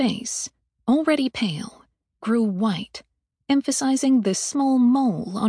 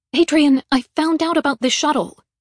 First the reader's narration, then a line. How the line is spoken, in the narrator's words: snapped